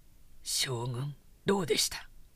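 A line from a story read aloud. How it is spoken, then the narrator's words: Quiet question. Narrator (Japanese): と彼の乗り物の陰に待っていた武将が三代の吉宗を小声で尋ねた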